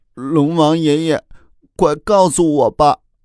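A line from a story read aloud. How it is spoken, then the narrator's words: Crying little dragon. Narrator (Chinese): 小龙人哭着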